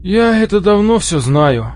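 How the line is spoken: Tired sigh. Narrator (Russian): устало вздохнул Дол-младший

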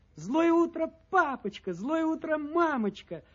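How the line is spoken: Joyful wolf cubs chiming in. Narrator (Russian): радостно подхватывают волчата

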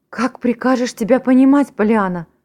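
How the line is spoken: Exclamation, aunt. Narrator (Russian): воскликнула тетя Поли

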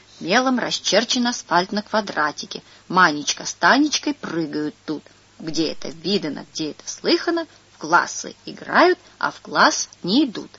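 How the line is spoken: Quiet, serious reading. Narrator (Russian): Андрюшка читает дальше так тихо и серьезно

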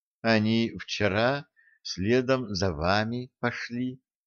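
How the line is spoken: Quiet reply. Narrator (Russian): негромко ответила сирень

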